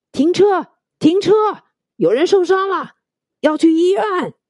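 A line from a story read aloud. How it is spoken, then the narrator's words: Anxious shouting while running. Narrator (Chinese): 那人一边跑一边焦急的喊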